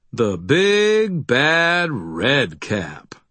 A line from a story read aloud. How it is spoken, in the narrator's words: I drawled